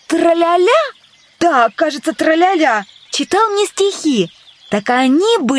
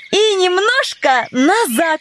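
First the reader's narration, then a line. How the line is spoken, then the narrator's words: Joyful. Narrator (Russian): радостно закончила Алиса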